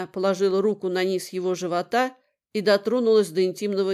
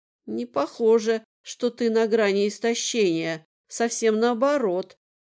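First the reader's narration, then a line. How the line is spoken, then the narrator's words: Whispered. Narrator (Russian): прошептала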